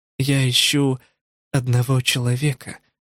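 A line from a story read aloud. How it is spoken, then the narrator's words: Tired. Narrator (Russian): устало сказала Кумико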